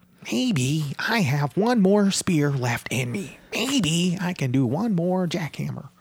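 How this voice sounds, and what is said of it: Imitates another person's voice. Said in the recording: “That's my Goldberg impersonation.”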